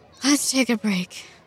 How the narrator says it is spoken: Zamu panted

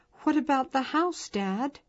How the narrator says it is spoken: Grace cried

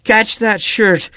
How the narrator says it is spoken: a breathless voice exclaimed behind him

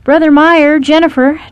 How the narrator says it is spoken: Travis hollered

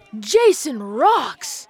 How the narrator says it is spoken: Matt yelled

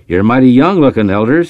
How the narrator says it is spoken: chuckled

